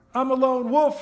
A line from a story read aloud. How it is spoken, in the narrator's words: shouted Eric